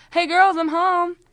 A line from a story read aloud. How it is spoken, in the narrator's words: my mom yells